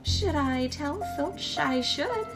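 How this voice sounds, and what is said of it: Sweet, saintly character voice. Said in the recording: “in a saintly voice,”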